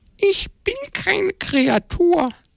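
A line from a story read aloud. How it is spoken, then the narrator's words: Small creature sniffling sadly. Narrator (German): schniefte diese kleine Kreatur traurig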